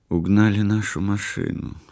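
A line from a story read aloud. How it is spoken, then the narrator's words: Quiet. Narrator (Russian): сказала она тихо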